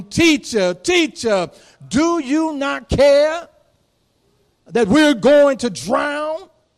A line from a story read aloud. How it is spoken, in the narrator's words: the disciples woke him up shouting